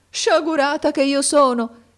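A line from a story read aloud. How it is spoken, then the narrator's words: Female exclamation. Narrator (Italian): esclamò essa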